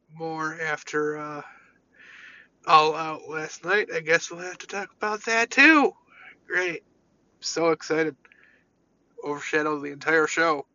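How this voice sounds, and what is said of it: Congested, sick-sounding voice. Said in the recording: “Sorry about my voice ... I have some random sinus infection”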